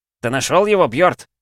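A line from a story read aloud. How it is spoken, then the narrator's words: Shouted from above. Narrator (Russian): крикнули сверху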